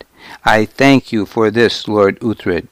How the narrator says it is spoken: he said

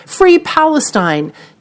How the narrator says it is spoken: one audience member shouted

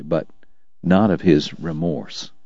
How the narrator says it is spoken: Doc told him quietly

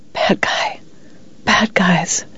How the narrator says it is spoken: thrashing in bed and whispering

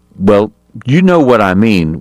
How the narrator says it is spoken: Wyatt said irritably

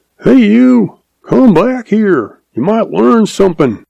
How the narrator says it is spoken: Old uncle hollers

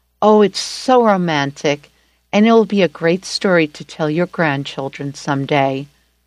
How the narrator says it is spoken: She sighed and said

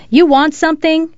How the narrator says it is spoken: she asked, ready to kick and scratch and yell if necessary

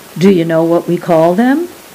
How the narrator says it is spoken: he asked

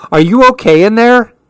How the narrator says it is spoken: Mom shouts

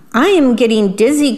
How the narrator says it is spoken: cried the worm

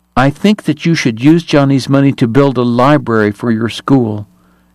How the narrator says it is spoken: told firmly

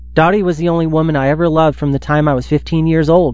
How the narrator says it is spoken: he says

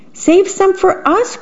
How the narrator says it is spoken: cried the small birds

